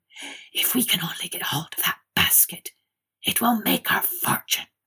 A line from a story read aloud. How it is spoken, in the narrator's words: they found time to whisper to each other